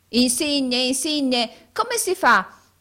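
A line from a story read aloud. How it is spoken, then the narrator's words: Shout. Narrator (Italian): gridò Carlo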